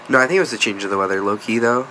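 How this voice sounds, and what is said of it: Congested, stuffy-nosed voice. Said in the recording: “You sound a little congested. ... I am, bro.”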